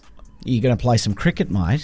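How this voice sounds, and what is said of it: Put-on Australian accent. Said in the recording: “say something in an Australian accent”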